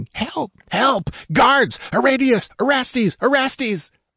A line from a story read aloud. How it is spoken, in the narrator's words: As if fear lent him superhuman energy, Taraskus blundered away in the darkness, shrieking